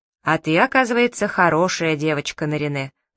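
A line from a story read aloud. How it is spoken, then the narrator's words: Plain. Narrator (Russian): сказала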